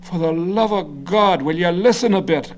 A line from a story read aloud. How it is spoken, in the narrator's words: Garvey cried, his combative face reddening further